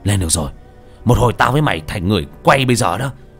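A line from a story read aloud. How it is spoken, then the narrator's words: Shout. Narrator (Vietnamese): Hùng quát lên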